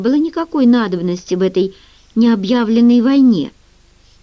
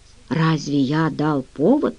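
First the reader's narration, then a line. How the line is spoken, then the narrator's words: Quiet question. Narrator (Russian): спросил негромко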